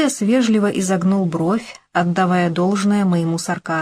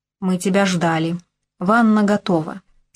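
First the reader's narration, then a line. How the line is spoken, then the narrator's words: Calm, unruffled. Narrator (Russian): сообщил он спокойно и невозмутимо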